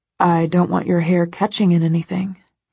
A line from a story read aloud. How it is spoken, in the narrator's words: he says quietly